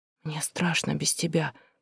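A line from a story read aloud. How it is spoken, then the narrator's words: Small child whispering. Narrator (Russian): прошептал малыш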